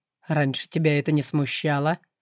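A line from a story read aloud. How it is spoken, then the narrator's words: Wry snort. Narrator (Russian): хмыкнул он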